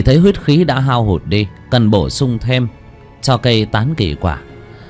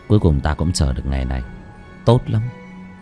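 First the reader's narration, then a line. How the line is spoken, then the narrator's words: Soft laugh. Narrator (Vietnamese): Bác Cổ khẽ cười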